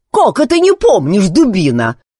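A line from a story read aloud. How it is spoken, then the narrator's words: Angry woman. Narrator (Russian): сердито проговорила женщина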